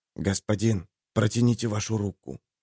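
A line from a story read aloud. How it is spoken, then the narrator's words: Quiet voice, servant. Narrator (Russian): тихим голосом произнес слуга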